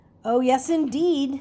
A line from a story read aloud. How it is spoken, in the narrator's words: said Mr